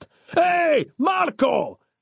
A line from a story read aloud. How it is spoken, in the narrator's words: yelled behind him